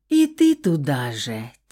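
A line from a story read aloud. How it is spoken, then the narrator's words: Heavy sigh. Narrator (Russian): тяжко вздохнула я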